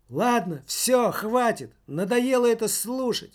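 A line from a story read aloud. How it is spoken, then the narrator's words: Teenager exclaiming. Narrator (Russian): воскликнул подросток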